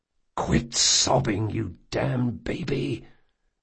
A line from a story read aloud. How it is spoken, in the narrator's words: Jean hissed